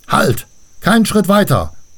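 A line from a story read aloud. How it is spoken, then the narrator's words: Dwarf barking crisply. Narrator (German): bellte einer der Zwerge zackig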